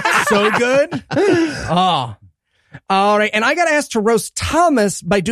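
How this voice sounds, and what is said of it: Usual voice. Nothing is said of it.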